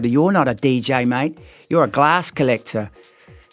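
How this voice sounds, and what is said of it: Put-on New Zealand accent. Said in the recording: “I don't know why I did that in a New Zealand accent”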